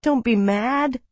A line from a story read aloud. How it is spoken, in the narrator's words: he pleaded